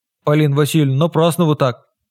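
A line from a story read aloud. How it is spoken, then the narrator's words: Deep bass voice. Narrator (Russian): пробасила Маша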